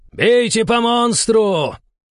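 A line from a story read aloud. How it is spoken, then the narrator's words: Yelled. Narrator (Russian): заорал командир противника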